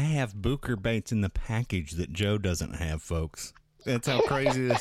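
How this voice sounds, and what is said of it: Usual voice. Nothing is said of it.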